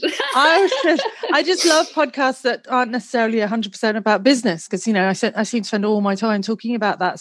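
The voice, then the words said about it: British accent. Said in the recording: “Your voice is a bit of a giveaway. Your accent is a bit of a giveaway. You're from the UK.”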